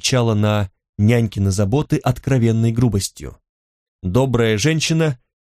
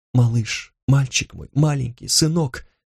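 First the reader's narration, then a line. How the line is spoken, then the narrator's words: Barely audible moaning murmur. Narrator (Russian): Тария постановая и приговаривая чуть слышно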